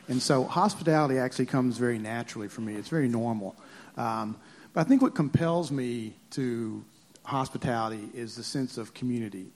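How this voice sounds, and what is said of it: Southern American accent. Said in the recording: “if you hadn't heard the accent, I'm a Southerner”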